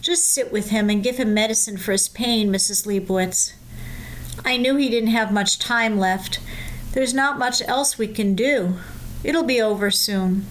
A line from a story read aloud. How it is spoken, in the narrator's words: The doctor replied in a thick voice